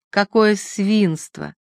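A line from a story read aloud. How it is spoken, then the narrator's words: Tender voice. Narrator (Russian): сказала она нежно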